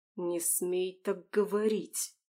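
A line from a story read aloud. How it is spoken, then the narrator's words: Through gritted teeth. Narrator (Russian): Сквозь зубы процедил Дин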